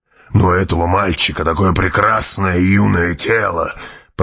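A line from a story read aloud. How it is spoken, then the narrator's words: Mumbled. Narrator (Russian): пробормотал барон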